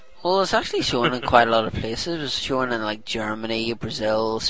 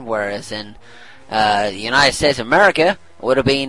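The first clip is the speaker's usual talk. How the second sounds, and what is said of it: Put-on Australian accent. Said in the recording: “I don't know why I'm talking Australian, but never mind, sometimes I get your lingos mixed up”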